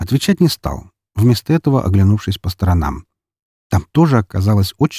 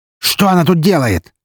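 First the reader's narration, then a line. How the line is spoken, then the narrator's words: Barked. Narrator (Russian): рявкнул он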